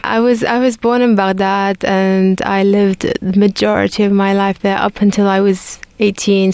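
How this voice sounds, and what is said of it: London-like British accent, hints of Scottish. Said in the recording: “People might mistake my accent for being in London, but there's some Scottish that jumps out from time to time.”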